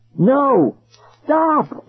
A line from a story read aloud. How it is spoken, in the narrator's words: they screamed